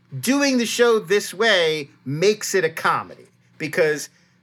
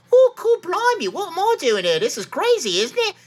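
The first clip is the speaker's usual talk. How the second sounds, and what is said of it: Silly put-on British accent. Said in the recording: “It is a very silly British voice that he's doing ... try to make your British voice sound very silly”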